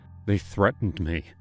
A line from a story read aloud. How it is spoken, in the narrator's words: I told him, my voice trembling